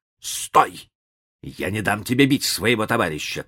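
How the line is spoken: Shout. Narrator (Russian): крикнул он

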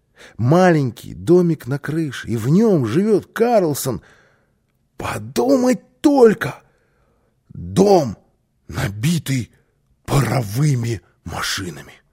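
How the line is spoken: Excited child exclaiming. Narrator (Russian): воскликнул малыш

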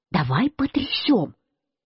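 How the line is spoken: Quiet speech. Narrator (Russian): я сказал Марусе тихонько

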